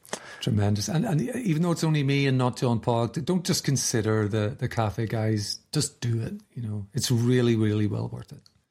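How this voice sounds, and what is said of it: Irish accent. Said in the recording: “the man with the great Irish accent”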